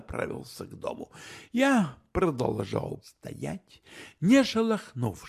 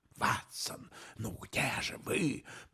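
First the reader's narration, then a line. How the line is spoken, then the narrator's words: Whispered. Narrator (Russian): прошептал Майкрофт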